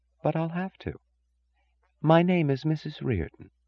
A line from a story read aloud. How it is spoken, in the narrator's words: she said softly